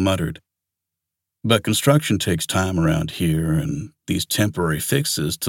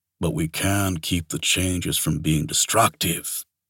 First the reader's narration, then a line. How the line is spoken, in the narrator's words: Zed muttered